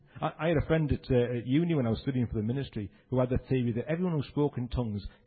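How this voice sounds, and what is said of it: Speaks with a regional accent. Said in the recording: “That's emphatic in my accent, isn't it?”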